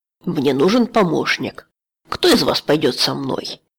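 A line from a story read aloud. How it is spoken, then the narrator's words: Stern. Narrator (Russian): Он сказал строго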